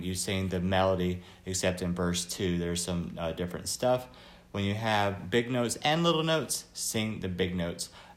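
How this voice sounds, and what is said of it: Slightly raspy voice. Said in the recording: “My voice is a little raspy today.”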